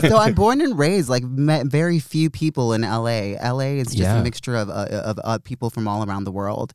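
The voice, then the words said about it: American Valley girl accent. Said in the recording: “I'm an LA girl, you know, in particular a Valley girl. And I think that my accent just kind of pretty much just, you know, just says it all.”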